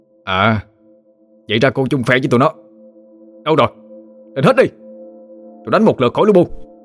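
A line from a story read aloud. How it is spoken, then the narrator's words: Shouted. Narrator (Vietnamese): Anh quát lên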